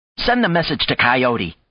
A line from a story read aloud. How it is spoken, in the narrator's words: she snapped at Michelle